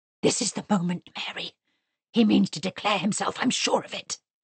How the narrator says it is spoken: Bennet whispered loudly into her ear

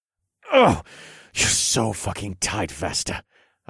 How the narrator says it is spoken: grunted

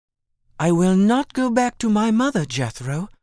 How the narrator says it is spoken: exclaimed impetuously

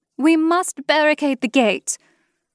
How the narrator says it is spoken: Rosmarin called out

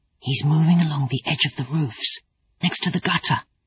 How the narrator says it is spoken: Pan whispered

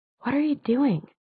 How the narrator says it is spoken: whispered

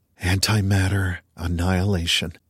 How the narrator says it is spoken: Day breathed

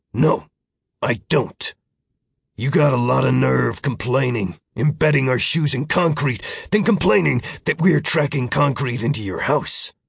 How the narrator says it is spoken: Roy growled

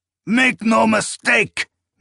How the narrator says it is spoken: Nayur roared over their cries

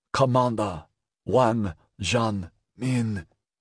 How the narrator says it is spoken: In a ghost of a voice he said

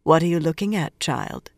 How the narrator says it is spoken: she asked gently

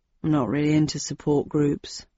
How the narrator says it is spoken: Friday grumbled

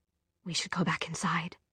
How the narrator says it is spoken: she said in a half whisper

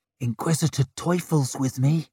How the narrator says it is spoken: he said softly, like he was trying to coax a skittish cat down from a windowsill

